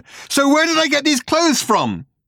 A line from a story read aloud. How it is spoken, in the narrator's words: he howled